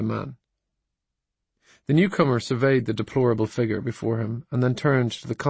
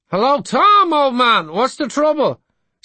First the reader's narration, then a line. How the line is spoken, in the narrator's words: he called out